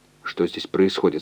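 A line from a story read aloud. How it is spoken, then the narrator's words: Plain. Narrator (Russian): спросил он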